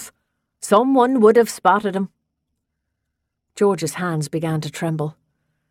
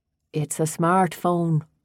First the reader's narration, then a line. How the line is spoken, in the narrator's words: Danny said gently